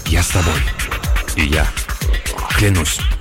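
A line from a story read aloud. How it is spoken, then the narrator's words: Several voices whispering. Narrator (Russian): Остальные один за другим стали шептать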